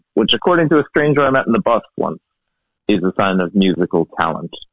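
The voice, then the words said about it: Mixed, shifted Irish accent. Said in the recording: “originally I'm from Ireland. Cork ... my accent has changed kind of dramatically ... picks up a bit of the accent of wherever I am”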